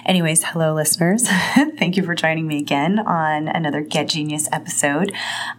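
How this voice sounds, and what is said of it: Scratchy, hoarse voice. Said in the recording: “sorry about my voice ... I've been sick for about a week, so I've got a scratchy voice.”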